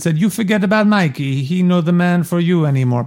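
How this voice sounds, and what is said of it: Strong put-on Italian accent. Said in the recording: “I'm using this accent because Puzo wrote in the book that she has a very strong Italian accent”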